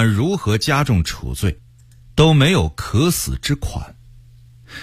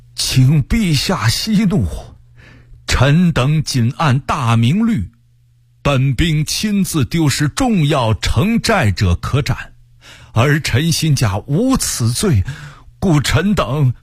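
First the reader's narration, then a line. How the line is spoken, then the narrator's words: Trembling, fearful voice. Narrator (Chinese): 刑部尚书声音战栗地说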